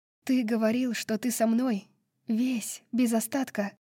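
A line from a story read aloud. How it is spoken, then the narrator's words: Said quietly. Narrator (Russian): тихо сказала Брайс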